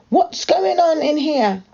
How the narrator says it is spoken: a voice shout

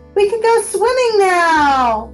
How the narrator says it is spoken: Mason yelled

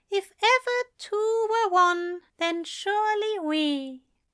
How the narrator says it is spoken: said dreamily, as if he were thinking out loud

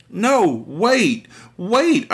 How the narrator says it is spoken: I squeaked

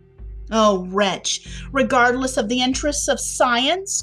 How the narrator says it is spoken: cried Dr

